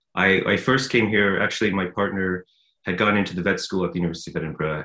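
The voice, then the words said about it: Non-Scottish accent. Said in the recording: “by your accent, we can tell that you're not Scottish born and bred”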